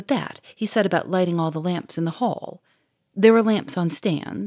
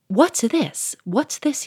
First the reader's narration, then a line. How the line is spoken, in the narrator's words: cried